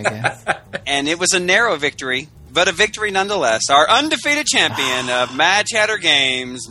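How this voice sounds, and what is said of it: Usual voice. Nothing is said of it.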